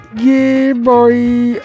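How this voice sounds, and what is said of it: Imitates another person's voice. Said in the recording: “that was my best impression of Flavor Flav”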